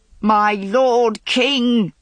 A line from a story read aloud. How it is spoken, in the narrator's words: Boleyn howled